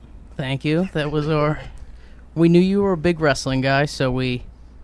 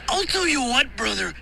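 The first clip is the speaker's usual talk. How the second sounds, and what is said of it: Pro wrestler impression. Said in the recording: “the Macho Man Randy Savage impression is iconic ... your Macho Man impression.”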